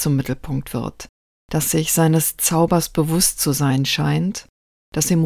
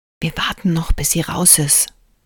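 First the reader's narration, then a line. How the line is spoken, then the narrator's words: Whispered. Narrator (German): flüstert Gila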